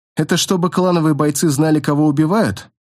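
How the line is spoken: Grim joking. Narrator (Russian): мрачно пошутил Джан

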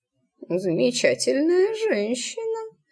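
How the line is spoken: Absent-minded mutter. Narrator (Russian): рассеянно пробормотал Тритл

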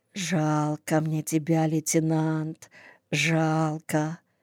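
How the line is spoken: Whispered. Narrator (Russian): шептала

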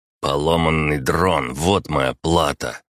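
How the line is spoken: Growling. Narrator (Russian): прорычал он

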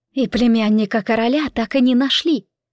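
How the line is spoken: Sighed. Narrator (Russian): Марка вздохнула

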